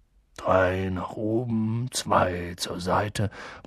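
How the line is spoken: Murmured. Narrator (German): murmelte er

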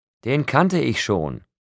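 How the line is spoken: Calling after someone. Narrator (German): rief Rosalie mir nach

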